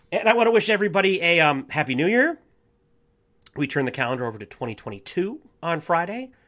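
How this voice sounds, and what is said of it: Rough, sick-sounding voice. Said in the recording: “really gnarly sinus infection ... morphed into this, like, awful bronchitis ... That's why my voice sounds effed up.”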